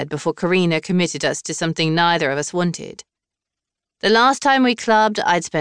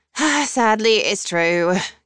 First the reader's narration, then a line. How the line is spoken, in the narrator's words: Karina sighed